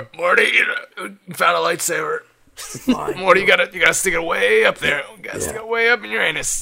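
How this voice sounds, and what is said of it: Cartoon character impression. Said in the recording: “my best Rick impression”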